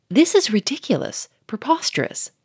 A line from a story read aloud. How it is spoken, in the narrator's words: cried Monsieur Fourmery, beginning to flush